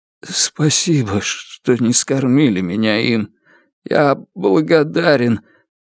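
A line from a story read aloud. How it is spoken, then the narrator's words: Trembling voice. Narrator (Russian): Эсом дрожащим голосом сказал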